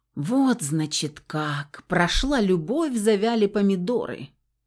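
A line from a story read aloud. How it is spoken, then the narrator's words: Sorrowful sigh. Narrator (Russian): Горестно вздохнул парень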